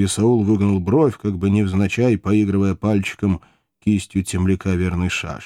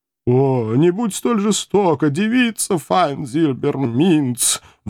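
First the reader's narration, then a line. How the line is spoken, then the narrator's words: Howling plea, addict philosopher. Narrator (Russian): взвыл наркозависимый философ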